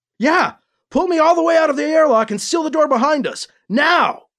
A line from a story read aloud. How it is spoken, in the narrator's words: Alibi shouted